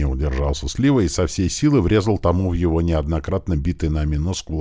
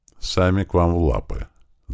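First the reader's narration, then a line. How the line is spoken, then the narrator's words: Thoughtful. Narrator (Russian): задумчиво продолжил Андрей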